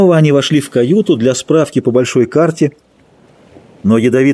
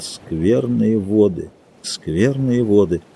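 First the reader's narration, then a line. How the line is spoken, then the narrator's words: Muttered. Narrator (Russian): грустно пробормотал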